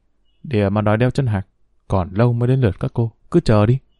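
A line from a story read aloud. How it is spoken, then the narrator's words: Muttering. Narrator (Vietnamese): Cô lẩm bẩm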